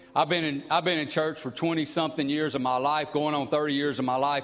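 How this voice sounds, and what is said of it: Noticeable unfamiliar regional accent. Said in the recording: “I know I got the accent's a little different. It's a little off, maybe not what you're used to. But it's mine.”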